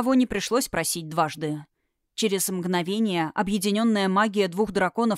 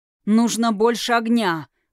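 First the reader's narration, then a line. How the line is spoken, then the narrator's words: Growled. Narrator (Russian): прорычал Тхирайм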